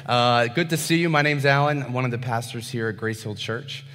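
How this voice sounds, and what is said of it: Hoarse, strained voice. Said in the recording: “I feel like I'm losing my voice a bit”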